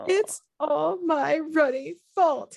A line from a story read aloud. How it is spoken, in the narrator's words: he sobbed, his face in his hands